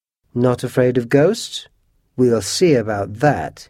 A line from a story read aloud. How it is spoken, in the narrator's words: scoffed